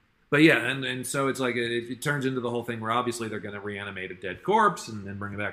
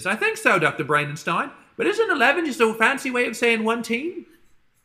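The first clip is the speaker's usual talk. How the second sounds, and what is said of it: Cartoon character voice, Cockney accent. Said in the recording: “my passable impression of Pinky ... your inexplicable Cockney accent”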